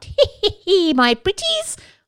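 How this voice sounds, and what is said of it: Cackling witch voice, poorly done. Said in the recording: “that's a really bad impression of a witch and a stereotype too”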